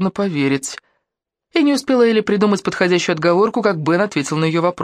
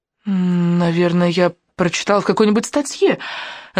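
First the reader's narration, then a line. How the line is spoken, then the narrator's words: Stammering. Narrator (Russian): запинаясь, сказала она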